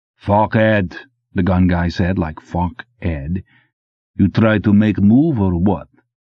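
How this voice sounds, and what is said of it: Old monster movie accent. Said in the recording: “had an accent out of an old monster movie”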